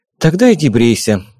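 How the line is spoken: Sighed. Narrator (Russian): вздохнула Вика

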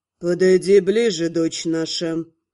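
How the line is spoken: Muffled, demanding. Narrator (Russian): глухо потребовал отец

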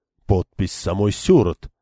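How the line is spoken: Muttering. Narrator (Russian): пробормотал он

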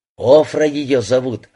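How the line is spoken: Plain. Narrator (Russian): ответил Натаниэль

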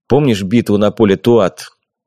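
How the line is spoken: Gloomy question. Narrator (Russian): Мрачно спросил я у него

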